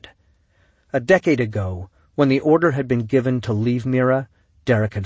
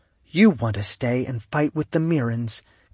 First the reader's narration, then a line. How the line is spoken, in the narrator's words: Kaylee said quietly